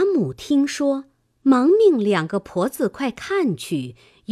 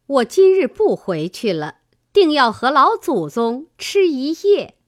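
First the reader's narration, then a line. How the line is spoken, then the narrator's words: Laughing. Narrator (Chinese): 尤氏笑道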